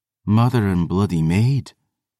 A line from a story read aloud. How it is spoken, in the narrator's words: Lachlan breathed